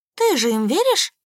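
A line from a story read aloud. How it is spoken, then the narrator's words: Slightly hurt reply. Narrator (Russian): Немного обиженно глядя на меня, ответила блондинка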